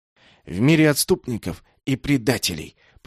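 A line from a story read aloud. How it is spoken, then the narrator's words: Whisper. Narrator (Russian): прошептал Шонг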